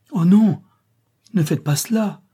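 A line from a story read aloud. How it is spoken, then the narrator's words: Young woman crying out. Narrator (French): s'écria la jeune fille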